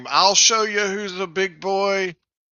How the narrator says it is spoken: Being angry from my previous ordeal, I'm going to charge that room and scream

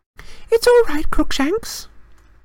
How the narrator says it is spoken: Hermione cooed through the wickerwork

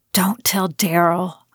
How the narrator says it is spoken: I whispered

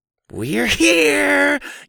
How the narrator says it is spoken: Eli screeched

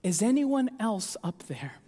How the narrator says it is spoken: The man whimpered

